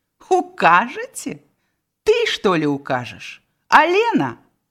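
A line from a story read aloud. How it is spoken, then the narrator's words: Proud laughter. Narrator (Belarusian): гонарливо засмеялася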